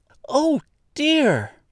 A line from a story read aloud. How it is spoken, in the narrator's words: cried Dorothy, clasping her hands together in dismay